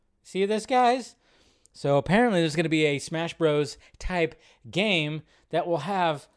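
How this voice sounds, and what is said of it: Usual voice. Nothing is said of it.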